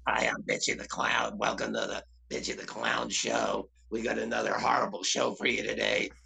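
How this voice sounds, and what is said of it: Clown character voice. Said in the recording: “his voice is, I am Bitchy ... This is how he sounds.”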